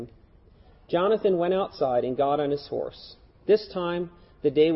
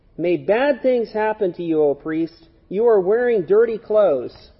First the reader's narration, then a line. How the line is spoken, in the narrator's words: Malice shouted